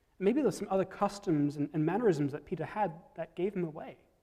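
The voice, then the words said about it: Non-local island accent. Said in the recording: “my accent and ... accent give away the fact that we aren't originally from around here. We each hail from opposite sides of an island thousands of miles away from Vancouver”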